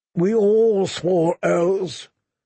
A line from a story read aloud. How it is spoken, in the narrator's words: said Sir Arthur Dane, so sadly